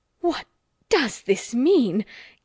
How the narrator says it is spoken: gasped poor Mrs

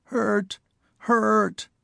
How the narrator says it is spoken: coughed, a wrenching, rattling little sound, and whimpered

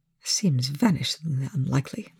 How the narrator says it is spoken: the scientist muttered

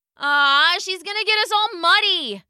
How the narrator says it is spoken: Alex shouted

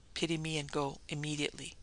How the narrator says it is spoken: she whispered desperately

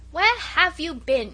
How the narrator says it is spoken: shouted Peter from the top of the yard wall

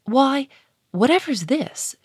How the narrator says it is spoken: she cried

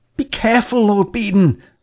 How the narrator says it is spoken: I cried

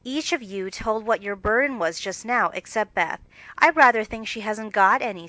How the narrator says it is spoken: said her mother

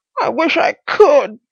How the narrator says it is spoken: he wheezed

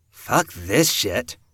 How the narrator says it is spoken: Ellie muttered

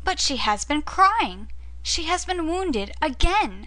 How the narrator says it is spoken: cried Alyosha

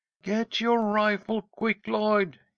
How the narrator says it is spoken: he called, waving his hat excitedly

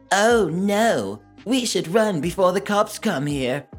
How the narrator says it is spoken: My friend, in a mocking voice

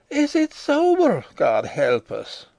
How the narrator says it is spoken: exclaimed Mrs

